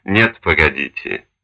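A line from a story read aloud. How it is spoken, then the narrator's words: Gentle interruption. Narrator (Russian): мягко перебил его Чучкевич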